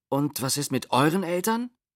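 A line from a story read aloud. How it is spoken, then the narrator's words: Plain. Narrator (German): fragte Matti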